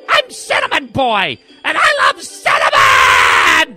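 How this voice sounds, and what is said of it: Screaming child character voice. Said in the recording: “Stop screaming, kid!”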